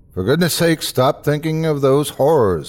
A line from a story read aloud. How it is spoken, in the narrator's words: I called out to him